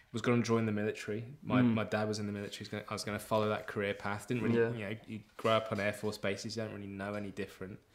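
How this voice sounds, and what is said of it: Mixed British and Australian accent. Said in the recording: “that funny accent ... I don't know if I still have an accent. I try and keep it. ... I'm definitely an Aussie when I ring home, ring the UK.”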